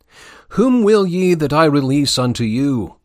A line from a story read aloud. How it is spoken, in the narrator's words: exclaims Pilate